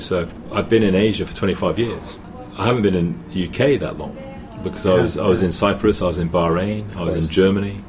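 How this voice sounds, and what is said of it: English accent. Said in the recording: “I still have an English accent”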